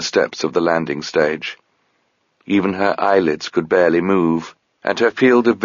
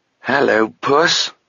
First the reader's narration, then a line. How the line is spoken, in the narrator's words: croaked Sabriel, coughing